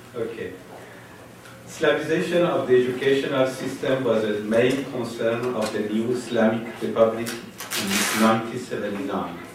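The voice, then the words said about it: Strong non-native English accent. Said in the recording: “I have a very bad English accent ... I know very well that I have a very bad accent”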